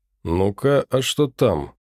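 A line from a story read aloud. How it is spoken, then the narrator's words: Quiet. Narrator (Russian): проговорил он негромко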